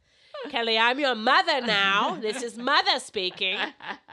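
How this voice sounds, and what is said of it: Bad Katharine Hepburn impression. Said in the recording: “doing a bad Katharine Hepburn impression”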